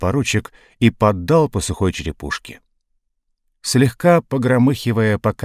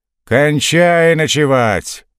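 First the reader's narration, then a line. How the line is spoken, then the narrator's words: Shout mimicking an officer. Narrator (Russian): подражая уряднику, крикнул Карабанов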